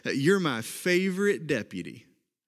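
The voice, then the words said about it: Cowboy toy voice, Oklahoma accent. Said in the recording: “a little bit of my Oklahoma accent coming out for you”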